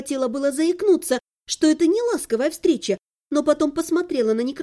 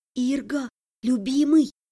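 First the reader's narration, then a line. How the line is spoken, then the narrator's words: Whispered. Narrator (Russian): зашептала я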